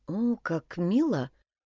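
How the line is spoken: Murmured. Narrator (Russian): пробормотала Тора

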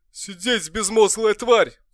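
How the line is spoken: Roaring. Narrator (Russian): взревел он

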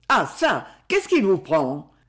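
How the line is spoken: Boy exclaiming. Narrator (French): s'exclama le jeune garçon

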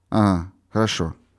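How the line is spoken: Slight burr. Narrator (Russian): ответил, слегка картавя

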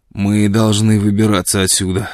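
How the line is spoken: Hoarse, hungover voice. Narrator (Russian): сказал он хриплым, точно с перепоя голосом

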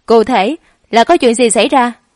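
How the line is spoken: Smiling question. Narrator (Vietnamese): Lãnh Hà mỉm cười gật đầu, rồi mới hỏi

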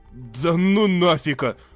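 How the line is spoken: Trembling summary. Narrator (Russian): дрожащим голосом резюмировал Рейн

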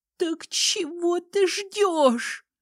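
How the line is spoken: Muffled hoarse rasp. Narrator (Russian): прохрипела Ливия, уткнувшись лицом в пол

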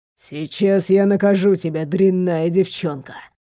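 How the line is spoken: Low voice. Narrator (Russian): низким голосом пояснил

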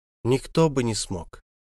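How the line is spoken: Soft interruption. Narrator (Russian): мягко прервала его королева

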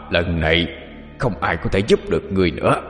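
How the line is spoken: Hoarse voice. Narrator (Vietnamese): âm thanh khàn khàn kia lại vang lên

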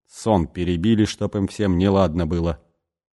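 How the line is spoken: Angry grumbling. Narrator (Russian): сердито бурчал он

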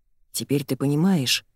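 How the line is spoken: Low voice. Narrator (Russian): произносит Дэн низким голосом

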